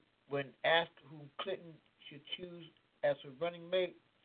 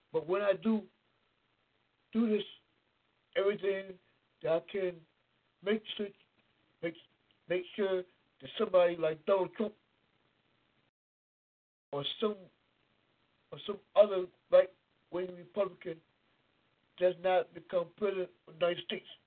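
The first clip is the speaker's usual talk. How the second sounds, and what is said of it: Bad Bernie Sanders impersonation. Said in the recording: “I know that's a bad Bernie Sanders impersonation”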